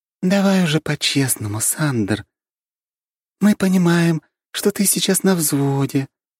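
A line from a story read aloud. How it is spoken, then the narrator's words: Kind, gentle voice. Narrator (Russian): говорит добрым и ласковым голосом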